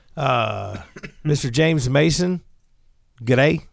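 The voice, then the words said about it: Put-on Southern Australian accent. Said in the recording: “my Southern Australian accent”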